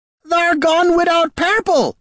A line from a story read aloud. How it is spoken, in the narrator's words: she shrieked